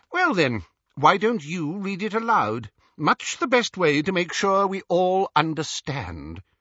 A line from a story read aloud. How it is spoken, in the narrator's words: inquired Xenophilius sharply